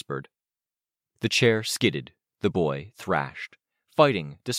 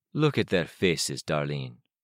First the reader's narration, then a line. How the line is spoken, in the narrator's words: he murmured